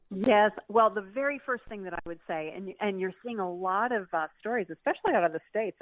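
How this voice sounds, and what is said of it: American accent. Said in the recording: “I think Americans, and I am one, as you can tell by my accent”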